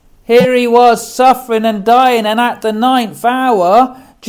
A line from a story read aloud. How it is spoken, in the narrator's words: Jesus cried with a loud voice, saying